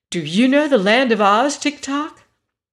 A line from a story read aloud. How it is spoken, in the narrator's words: asked in an eager tone